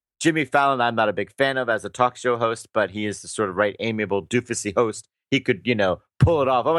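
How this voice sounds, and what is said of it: Usual voice. Nothing is said of it.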